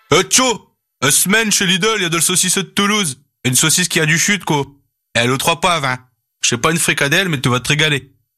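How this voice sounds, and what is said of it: Put-on northern French accent. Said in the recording (French): “avec un accent du Nord”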